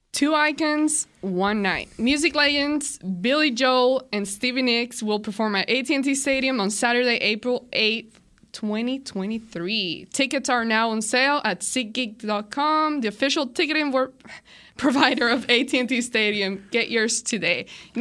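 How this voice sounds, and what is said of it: Speaker's own regional accent. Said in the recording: “my accent. Hearing my own accent.”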